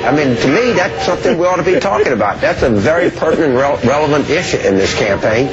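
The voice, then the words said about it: Deep Southern Bayou accent. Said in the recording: “his accent has become more Southern Bayou ... Why is he suddenly speaking in such a deep Bayou accent”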